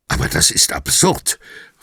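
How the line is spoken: Hissing. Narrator (German): fauchte Fontana

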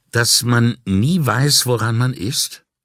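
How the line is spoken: Plain question. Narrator (German): fragte Brunetti

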